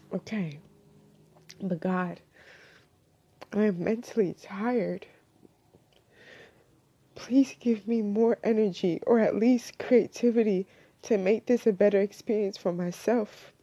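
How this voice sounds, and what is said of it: Shaky, tearful voice. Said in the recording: “I'm crying, y'all, so forgive me if my voice is a bit shaky”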